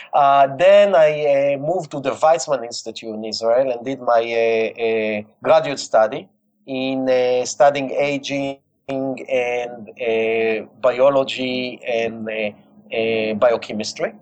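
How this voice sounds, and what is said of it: Heavy Israeli accent. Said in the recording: “I'm sure that you can hear my heavy accent, okay, Israeli accent.”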